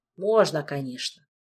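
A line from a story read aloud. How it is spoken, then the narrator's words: Sighed. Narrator (Russian): вздохнул Макс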